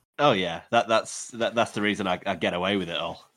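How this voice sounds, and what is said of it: English accent. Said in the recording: “the English accent”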